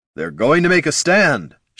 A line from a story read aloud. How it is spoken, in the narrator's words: shouted Jin